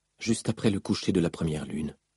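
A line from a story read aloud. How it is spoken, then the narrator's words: Said quietly. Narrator (French): dit-elle tout bas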